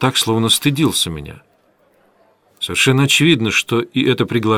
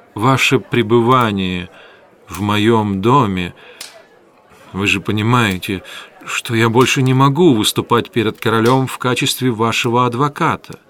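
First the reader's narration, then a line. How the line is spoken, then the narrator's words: Very hesitant. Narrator (Russian): начал он, наконец, очень неуверенно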